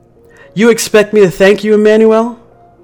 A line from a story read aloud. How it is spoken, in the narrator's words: I yelled